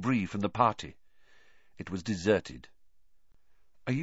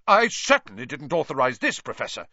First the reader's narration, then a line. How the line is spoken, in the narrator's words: said Percy, puffing himself up indignantly